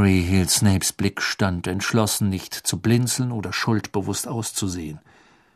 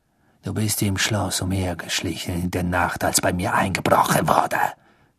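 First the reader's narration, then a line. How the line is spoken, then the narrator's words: Hissed. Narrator (German): zischte Snape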